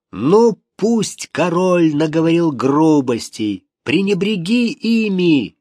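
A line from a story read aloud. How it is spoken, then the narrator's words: Shouting into ear. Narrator (Russian): кричал ему в ухо Хавьер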